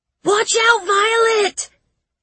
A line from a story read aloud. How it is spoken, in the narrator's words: Tim's scream